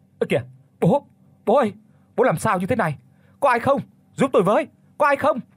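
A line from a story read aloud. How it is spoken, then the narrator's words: Panicked screaming. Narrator (Vietnamese): Nhất hét lên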